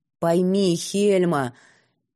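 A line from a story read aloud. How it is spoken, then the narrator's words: Tired sigh. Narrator (Russian): Нида устало вздохнула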